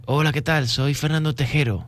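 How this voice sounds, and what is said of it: Imitated Córdoba Spanish accent. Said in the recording (Spanish): “Ese acento cordobés.”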